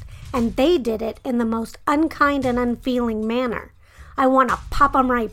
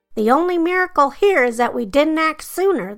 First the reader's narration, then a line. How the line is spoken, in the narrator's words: the snowman yelled